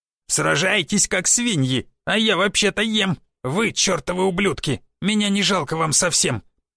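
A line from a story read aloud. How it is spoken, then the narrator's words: Grumbling with full mouth. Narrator (Russian): Недовольно пробурчал гоблин с набитым ртом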